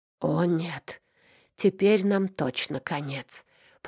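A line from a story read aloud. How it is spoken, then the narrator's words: Moaning. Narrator (Russian): простонал Аверин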